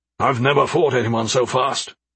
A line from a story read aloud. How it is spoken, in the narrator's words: he grumbled in anger